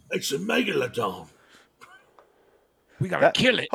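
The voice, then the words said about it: Jason Statham impression. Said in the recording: “That wasn't a bad impression... That was pretty good... I get to Jason Statham.”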